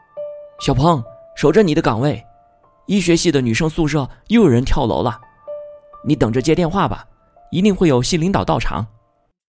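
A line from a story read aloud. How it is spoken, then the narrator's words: Called out. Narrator (Chinese): 有人叫道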